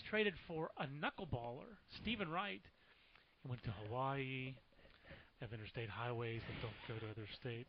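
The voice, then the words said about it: Bad Stephen Wright impression. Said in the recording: “my bad Stephen Wright impersonation”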